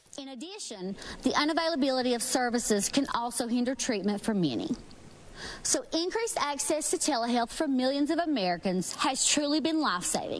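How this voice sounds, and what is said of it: West Virginia accent. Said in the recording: “She's from West Virginia. And if you couldn't tell by her accent ... she's from West Virginia. Like, clearly, There's no doubt about that.”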